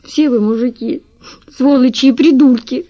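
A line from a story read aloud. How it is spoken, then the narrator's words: Sobbing. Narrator (Russian): всхлипывала она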